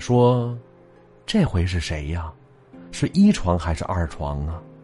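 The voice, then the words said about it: Quiet, hushed voice. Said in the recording (Chinese): “小声的”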